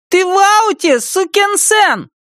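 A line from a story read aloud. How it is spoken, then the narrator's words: Parting shout. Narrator (Russian): Замир напоследок крикнул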